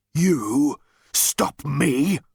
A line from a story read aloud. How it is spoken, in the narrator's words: roared the tank